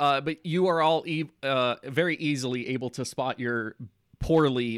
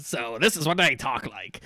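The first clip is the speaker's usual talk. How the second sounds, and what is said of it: Gruff voice, slight Scottish accent. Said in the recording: “it's trying its best to do like a very gruff voice ... a gnome doing a dwarf impression ... you have a slight Scottish accent”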